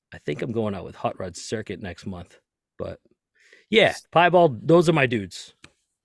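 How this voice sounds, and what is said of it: Boston accent. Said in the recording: “Do I detect like a Northeastern accent going on? ... Boston”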